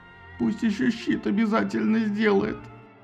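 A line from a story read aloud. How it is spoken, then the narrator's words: Sobbing plea. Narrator (Russian): всхлипывая попросил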